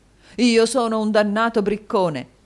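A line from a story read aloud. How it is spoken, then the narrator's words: Exclaiming. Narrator (Italian): esclamò il signor Mantalini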